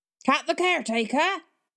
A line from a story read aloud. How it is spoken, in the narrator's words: the fisherman hollered back